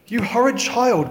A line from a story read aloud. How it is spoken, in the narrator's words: cried